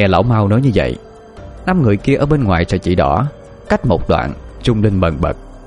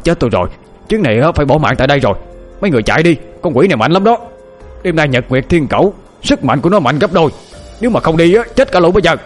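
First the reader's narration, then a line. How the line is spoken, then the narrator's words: Panicked cry. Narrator (Vietnamese): Lão thấy một luồng âm khí dày đặc bám xung quanh người lão Hoang thì miệng la lên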